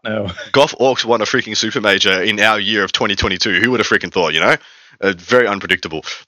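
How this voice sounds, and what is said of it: Sick, slightly off-sounding voice. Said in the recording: “I am really under the weather ... if a couple of coughs do make it into the end recording ... if my tone of voice or if I'm a bit a bit off in how I sound ... I have been really crook ... holding off a bit of a fever”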